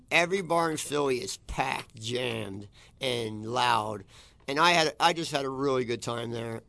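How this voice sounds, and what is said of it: Hoarse, worn-out voice. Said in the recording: “my throat's gone because I went out hard on Friday night”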